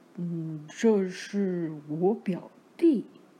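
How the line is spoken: Timid low reply. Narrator (Chinese): 老瓦利怯生生的低声回答

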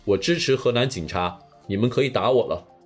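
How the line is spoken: Sarcastic. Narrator (Chinese): 讽刺说

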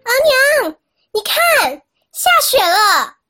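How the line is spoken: Shouting. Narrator (Chinese): 大喊

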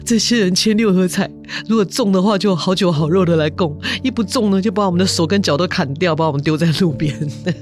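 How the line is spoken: Tearful complaint. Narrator (Chinese): 土地公就哭诉说

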